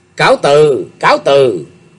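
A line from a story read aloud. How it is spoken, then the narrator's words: Polite smiling farewell. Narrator (Vietnamese): Đạo diễn mỉm cười chắp tay chào Sung đại sư nói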